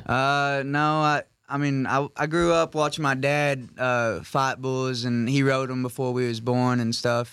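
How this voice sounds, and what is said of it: Cowboy accent. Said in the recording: “I love his accent. Such a cowboy.”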